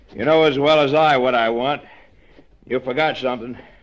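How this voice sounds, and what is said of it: Breathless, out of breath. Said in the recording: “I'm all out of breath.”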